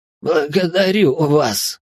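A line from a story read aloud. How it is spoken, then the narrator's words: Wheezing, coughing prisoner. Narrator (Russian): просипел и закашлялся пленник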